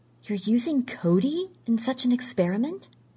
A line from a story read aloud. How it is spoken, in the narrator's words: she whispered